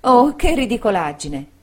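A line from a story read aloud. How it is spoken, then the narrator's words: Exclaimed. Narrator (Italian): esclamò Dora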